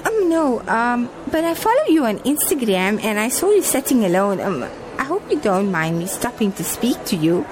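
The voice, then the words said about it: South African Johannesburg accent. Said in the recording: “You sound like you're from Johannesburg ... Is my accent that obvious? ... to us who were born in SA, it is.”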